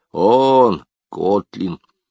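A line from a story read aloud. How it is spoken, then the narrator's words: Satisfied grunt. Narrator (Russian): Старик удовлетворенно буркнул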